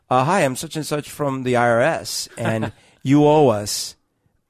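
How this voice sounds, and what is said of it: Thick Indian accent. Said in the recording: “with a thick Indian accent saying”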